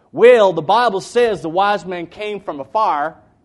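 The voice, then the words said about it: East Texas accent. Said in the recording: “in his very East Texas accent”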